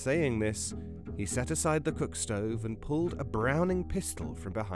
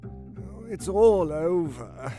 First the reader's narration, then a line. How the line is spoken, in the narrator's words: the cat said in a weak voice